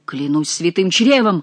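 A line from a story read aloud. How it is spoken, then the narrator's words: Exclamation. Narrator (Russian): воскликнул Шико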